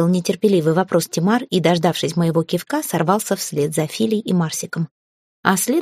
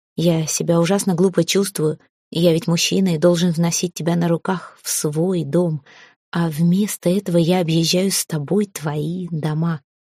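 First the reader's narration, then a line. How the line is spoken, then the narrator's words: Sad. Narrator (Russian): грустно сказал Эрелиф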